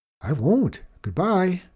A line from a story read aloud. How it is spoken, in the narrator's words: cried the little boy